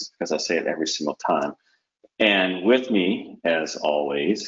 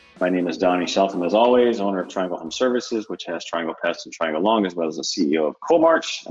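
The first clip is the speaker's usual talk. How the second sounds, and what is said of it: Very fast speech. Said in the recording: “I don't know why I'm saying that so fast.”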